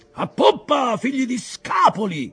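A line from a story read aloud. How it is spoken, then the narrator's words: Shout. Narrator (Italian): urlò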